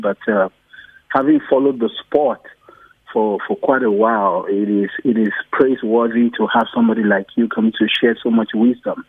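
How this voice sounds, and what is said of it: Non-South African foreign accent. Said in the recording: “I'm sure from my accent you can see that I'm not originally from South Africa”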